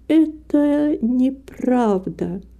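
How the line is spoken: Slow indignant speech. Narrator (Russian): медленно и с негодованием произнесла Рита

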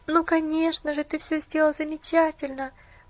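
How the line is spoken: Sobbing. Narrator (Russian): всхлипнула Поллианна

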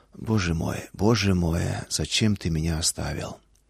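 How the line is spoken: Whisper, not a cry. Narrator (Russian): Шепот, не вопль

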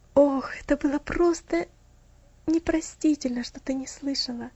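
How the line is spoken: Sighing. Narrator (Russian): вздохнул он

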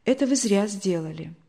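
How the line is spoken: Sad. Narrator (Russian): так печально сказала

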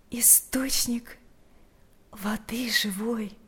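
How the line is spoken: Quiet. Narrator (Russian): тихо произнесла Марфа

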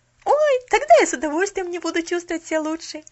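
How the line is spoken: Exclaiming. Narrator (Russian): воскликнула Поллианна

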